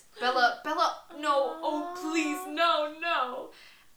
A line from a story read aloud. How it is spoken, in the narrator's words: the angel was sobbing tearless, broken sobs